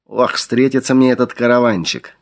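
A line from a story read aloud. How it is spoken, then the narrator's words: Menacing grumble. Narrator (Russian): грозно проворчал Игорь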